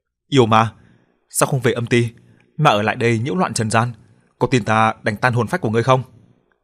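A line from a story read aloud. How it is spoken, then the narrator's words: Loud. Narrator (Vietnamese): Mình lớn tiếng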